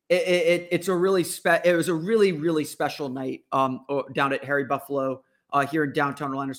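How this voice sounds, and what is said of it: Slightly hoarse voice. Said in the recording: “tell my voice is a little bit hoarse still, just from having to shout so much”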